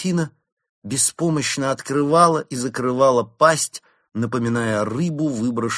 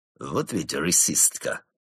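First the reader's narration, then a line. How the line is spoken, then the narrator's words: Disapproving grumble. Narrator (Russian): буркнул Крот с неодобрением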